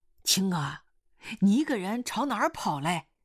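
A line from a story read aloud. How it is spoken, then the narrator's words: Calling out. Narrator (Chinese): 狗老师喊他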